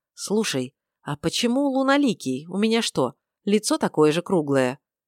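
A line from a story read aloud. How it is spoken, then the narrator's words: Quick quiet answer. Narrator (Russian): так же тихо и быстро ответила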